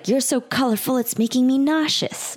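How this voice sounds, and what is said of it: Bad, overly emotive character voice. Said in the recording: “that was a bad impression. That was a little too like emotive.”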